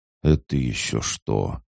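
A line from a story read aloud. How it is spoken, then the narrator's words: Muttered. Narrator (Russian): пробормотал он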